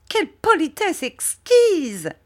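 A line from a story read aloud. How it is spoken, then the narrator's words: Exclaimed. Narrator (French): s'écria Miss Murdstone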